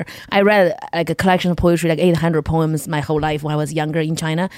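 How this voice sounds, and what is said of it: Non-native accent in English. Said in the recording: “I came to America. I don't speak English well. ... My accent is stopping me from everything.”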